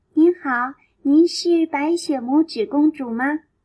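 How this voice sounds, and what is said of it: Tiny, small voice. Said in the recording (Chinese): “用很细小的声音说”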